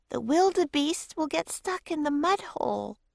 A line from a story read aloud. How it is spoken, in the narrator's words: she cried